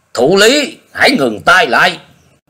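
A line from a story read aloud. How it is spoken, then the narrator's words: Resounding roar. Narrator (Vietnamese): Nhiệt Nhĩ Hầu gầm vang lên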